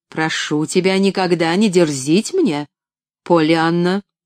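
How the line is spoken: Dry, curt tone. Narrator (Russian): Сухо проговорила

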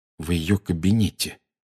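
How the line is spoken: Quiet. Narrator (Russian): тихо произнес Гарри

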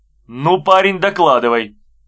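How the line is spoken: Stern. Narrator (Russian): строго сказал Беденко

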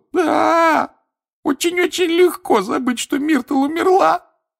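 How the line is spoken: Sobbing. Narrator (Russian): рыдала плакса Миртл

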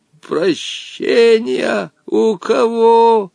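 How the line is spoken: Surprised, wheezing old man. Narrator (Russian): Удивленно прохрипел старец Женя

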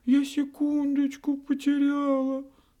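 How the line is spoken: Sobbing. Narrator (Russian): всхлипнула минутка

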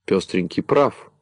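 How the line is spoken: Laughing. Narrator (Russian): засмеялся Кубик

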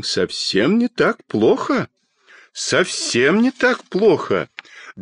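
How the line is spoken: Pleased. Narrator (Russian): довольным голосом сказал детский доктор

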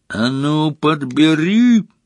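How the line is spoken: Yelled. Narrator (Russian): завопил на нее Мракс

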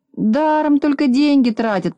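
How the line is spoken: Grumbling. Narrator (Russian): проворчал Незнайка

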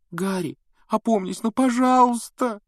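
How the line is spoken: Tearful pleading. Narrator (Russian): Со слезами взмолилась Гермиона

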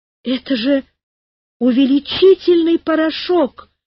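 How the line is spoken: Frightened shout. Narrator (Russian): испуганно закричал Карик

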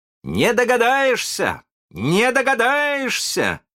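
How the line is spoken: Proud shouting. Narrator (Russian): кричал с гордостью Питер

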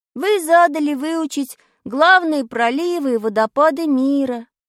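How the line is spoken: Glum drawl. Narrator (Russian): уныло протянул я

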